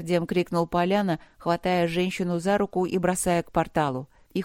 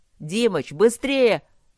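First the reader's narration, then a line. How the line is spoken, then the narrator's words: Yelled at full strength. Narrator (Russian): Во всю мощь заорал Матвей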